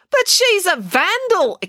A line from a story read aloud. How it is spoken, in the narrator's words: exclaimed April